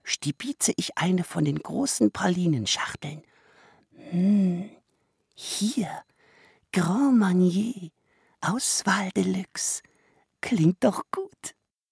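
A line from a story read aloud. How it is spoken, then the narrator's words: Murmured. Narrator (German): murmelt er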